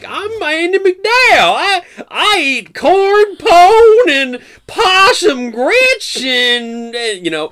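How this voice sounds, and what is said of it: Exaggerated folksy Southern accent. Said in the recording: “accent ... this super folksied up southern”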